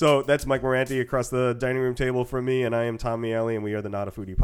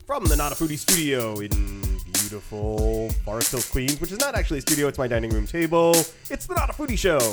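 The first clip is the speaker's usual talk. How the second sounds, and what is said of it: Announcer-style radio voice. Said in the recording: “my radio voice. I put on my radio voice”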